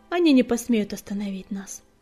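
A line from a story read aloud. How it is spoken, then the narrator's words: Calm reply. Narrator (Russian): спокойно отозвалась Пепелица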